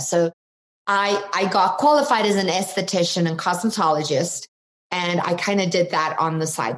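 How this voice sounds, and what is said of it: South African accent. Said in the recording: “So you might detect an accent. I'm from South Africa originally.”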